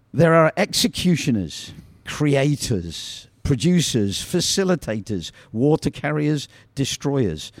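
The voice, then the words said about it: British accent. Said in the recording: “I'm glad Fleet can hear the accent. ... I wish I had that accent. ... I prefer the British accent than the American accent.”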